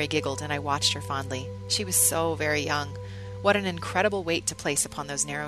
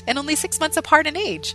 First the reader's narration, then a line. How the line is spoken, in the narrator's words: Mary laughed